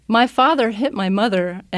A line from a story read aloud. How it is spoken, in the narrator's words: cried to the group